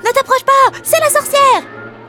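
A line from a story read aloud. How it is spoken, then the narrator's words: Little girl shouting. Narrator (French): cria la petite fille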